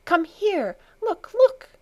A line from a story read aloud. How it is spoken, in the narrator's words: she cried, beside herself with excitement